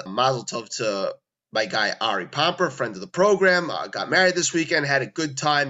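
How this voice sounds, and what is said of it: Worn, under-the-weather voice. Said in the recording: “We're playing a little hurt, as you can sound. My voice is not great. ... We're playing a little under the weather”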